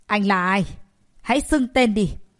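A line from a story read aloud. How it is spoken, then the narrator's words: Sharp shout. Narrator (Vietnamese): một người mà quát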